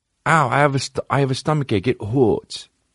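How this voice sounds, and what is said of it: Baby voice. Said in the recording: “do baby voice with your girl”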